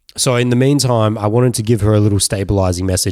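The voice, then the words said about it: Hoarse, rough voice. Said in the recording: “as you can hear in my voice, I'm currently recovering from a little bout of COVID. So my voice got a little bit chalked up”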